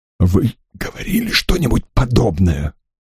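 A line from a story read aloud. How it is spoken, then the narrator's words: Whispered question. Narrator (Russian): шепотом осведомился сэр Уолтер у Стрэнджа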